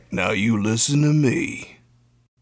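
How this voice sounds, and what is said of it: Mike Ehrmantraut impression. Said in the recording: “I can do a Mike Ehrmantraut impression. ... From Breaking Bad and Better Call Saul.”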